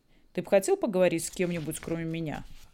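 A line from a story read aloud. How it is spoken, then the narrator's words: Sharp voice. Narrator (Russian): Его голос снова зазвучал резко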